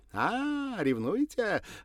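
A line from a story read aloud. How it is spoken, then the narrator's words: Laughing. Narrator (Russian): рассмеялась Андреева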